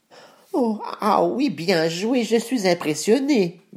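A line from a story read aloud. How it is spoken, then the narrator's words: Quavering voice. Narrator (French): dit le chat d'une voix chevrotante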